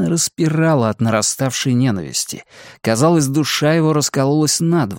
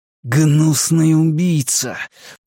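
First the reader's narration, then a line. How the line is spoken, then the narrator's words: Hissing through teeth. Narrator (Russian): прошипел он сквозь зубы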